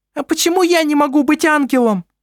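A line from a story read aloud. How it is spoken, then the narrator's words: Shrill question. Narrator (Russian): спросила Селестина своим визгливым голосом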